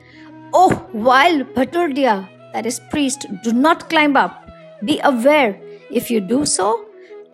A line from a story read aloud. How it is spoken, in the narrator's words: roared